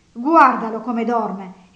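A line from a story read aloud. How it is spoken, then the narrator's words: Indignant woman exclaiming. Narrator (Italian): esclamò lei indignata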